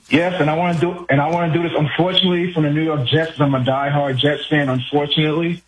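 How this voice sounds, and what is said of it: New York accent. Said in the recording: “the way you said "unfortunately" means you're from my neck of the woods. Where are you? Are you a Queens guy? ... I can hear it from your accent.”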